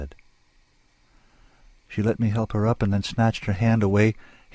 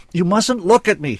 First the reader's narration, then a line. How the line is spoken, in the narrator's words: shouted